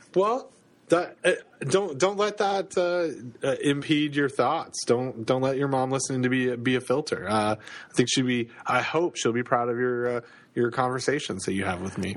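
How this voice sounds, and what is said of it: Canadian accent. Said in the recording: “you have a lovely Canadian accent ... my sweet Canadian accent”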